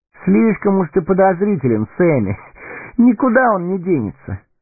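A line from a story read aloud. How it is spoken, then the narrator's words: Laughing. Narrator (Russian): рассмеялся Фродо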